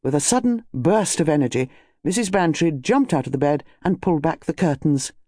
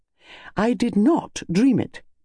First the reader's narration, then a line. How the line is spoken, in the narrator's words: said Mrs